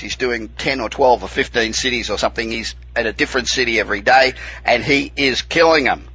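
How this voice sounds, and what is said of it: Australian accent. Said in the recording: “good to hear an Aussie accent”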